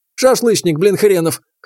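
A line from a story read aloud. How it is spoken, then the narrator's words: Scoffing grunt. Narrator (Russian): хмыкнул тренер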